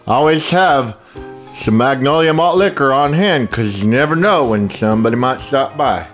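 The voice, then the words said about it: Drunk guy character voice. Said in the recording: “What's that accent?... It's my drunk malt liquor guy”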